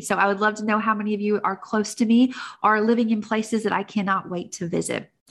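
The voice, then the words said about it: Tennessee Southern accent. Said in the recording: “if my accent hasn't given it away already, I am broadcasting from Nashville, Tennessee”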